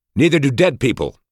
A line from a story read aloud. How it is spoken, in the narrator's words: barked angrily